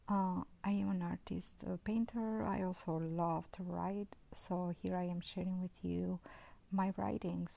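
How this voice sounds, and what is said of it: Non-native Albanian-European English accent. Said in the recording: “I was born in Albania. I lived most of my time around Europe ... I am a multilingual person and I do have an accent.”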